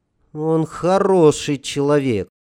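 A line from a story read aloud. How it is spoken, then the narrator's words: Thoughtful. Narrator (Russian): задумчиво сказала девчонка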